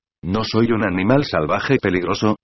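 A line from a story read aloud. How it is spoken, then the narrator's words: Plain. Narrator (Spanish): dijo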